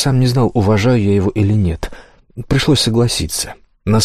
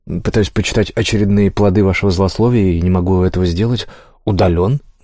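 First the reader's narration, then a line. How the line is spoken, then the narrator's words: Plain. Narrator (Russian): говорит браузер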